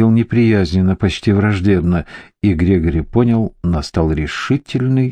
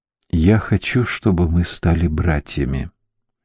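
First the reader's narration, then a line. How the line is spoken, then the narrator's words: Very quiet speech. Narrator (Russian): промолвил он Сету совсем негромко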